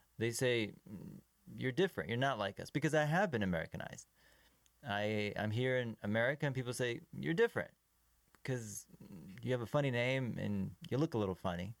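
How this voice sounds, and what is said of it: Slight foreign accent. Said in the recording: “You got a little accent. ... I get a little bit of an accent, yeah. And it'll slip out.”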